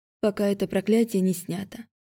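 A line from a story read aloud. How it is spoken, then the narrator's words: Quiet, bitter. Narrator (Russian): чувствуя горечь на языке, произнесла я тихо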